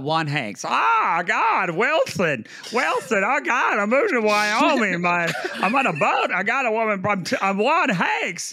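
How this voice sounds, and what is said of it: Imitates another person's voice. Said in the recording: “my Tom Hanks impression. I know it sounds just like him.”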